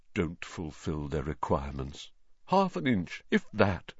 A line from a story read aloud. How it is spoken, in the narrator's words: Nearly headless Nick, the ghost of Gryffindor Tower, morosely, muttering under his breath